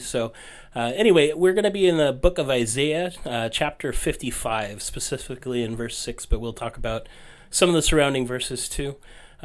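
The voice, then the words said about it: Congested, honky nasal voice. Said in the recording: “forgive my voice ... I'm just getting over a cold, so I'll be a little bit honky”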